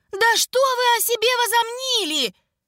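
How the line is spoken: Yelling. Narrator (Russian): заорал он

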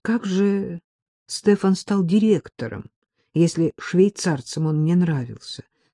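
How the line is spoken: Plain. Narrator (Russian): спросил Саша

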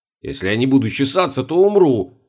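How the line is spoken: Snapping retort. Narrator (Russian): огрызнулся

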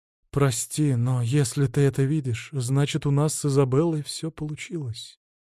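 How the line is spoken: Soft female voice. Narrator (Russian): мягко сказала женщина

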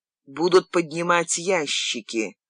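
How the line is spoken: Whisper. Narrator (Russian): шепнул Боукелика

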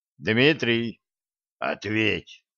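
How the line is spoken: Hoarse command. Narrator (Russian): хрипло скомандовал Федя

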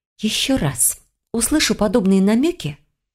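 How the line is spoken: Soft gentle whisper. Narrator (Russian): пообещала тихим незлобным шепотом

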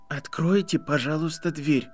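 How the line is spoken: Trembling voice. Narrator (Russian): сказал Гарри дрожащим голосом

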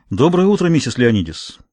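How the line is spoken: Casual greeting. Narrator (Russian): непринужденным тоном приветствовал ее Тавернер

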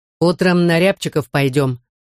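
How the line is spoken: Stern. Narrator (Russian): строго сказал Никита

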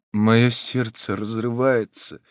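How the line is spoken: Muffled, in native language. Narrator (Russian): глухо проговорил последний на своем родном языке

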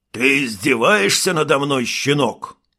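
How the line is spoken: Guard's growl. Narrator (Russian): прорычал охранник

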